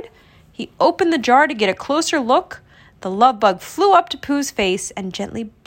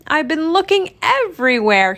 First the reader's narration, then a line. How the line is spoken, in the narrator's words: he cried